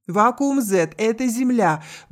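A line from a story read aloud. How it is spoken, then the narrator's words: Loud statement. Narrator (Russian): громко произнесла сидящая за столом Стоун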